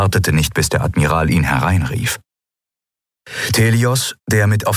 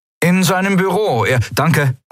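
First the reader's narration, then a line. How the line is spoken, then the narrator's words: Calling out. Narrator (German): rief Kai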